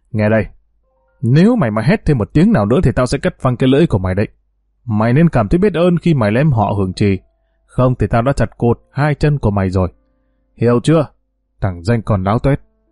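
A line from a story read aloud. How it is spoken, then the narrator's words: Harsh menacing voice. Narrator (Vietnamese): Bình gằn giọng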